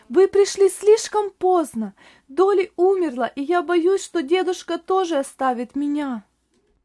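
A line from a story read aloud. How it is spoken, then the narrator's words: Boy shouting, sobbing loudly. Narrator (Russian): мальчик громко рыдая, и закричал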